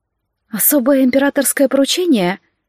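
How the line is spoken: Timid, embarrassed question. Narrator (Russian): робко спросила Лалия и залилась румянцем, явно смущаясь от слова

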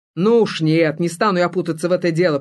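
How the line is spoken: Grumble. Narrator (Russian): пробурчал он

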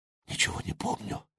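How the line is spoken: Whisper. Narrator (Russian): шепнула она

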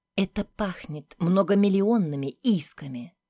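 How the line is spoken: Harsh clipped woman's voice. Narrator (Russian): грубо отчеканила женщина

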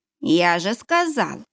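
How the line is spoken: Creaky voice. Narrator (Russian): проскрипел Ашензон

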